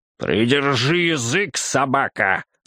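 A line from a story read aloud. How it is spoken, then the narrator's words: Growl. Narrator (Russian): зарычал он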